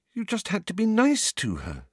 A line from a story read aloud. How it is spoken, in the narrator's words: said Hermione, looking up anxiously